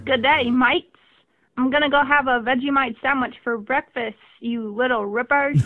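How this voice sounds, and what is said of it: Put-on Australian accent. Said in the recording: “in your best Australian accent”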